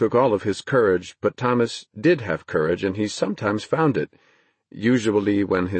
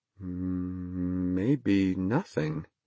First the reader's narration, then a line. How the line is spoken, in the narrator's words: Thomas said slowly